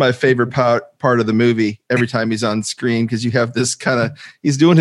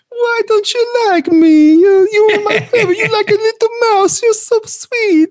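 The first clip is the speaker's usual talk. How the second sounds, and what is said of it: Exaggerated stereotypical Italian accent. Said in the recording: “the accent is just so stereotypical, but it's hilarious too”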